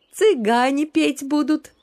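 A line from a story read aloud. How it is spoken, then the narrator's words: Joyful announcement. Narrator (Russian): радостно сообщила Лидка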